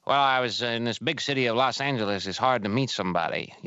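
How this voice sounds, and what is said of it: Old-fashioned film noir narrator voice. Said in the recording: “he speaks in a noir voice... you can do the voice... it's like this old voice”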